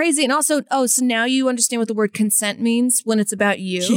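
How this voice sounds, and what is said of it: Usual voice. Nothing is said of it.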